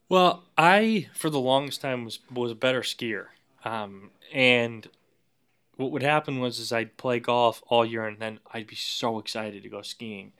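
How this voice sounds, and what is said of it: New England accent. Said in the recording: “your accent and your sporting interests, you're New England to the bone”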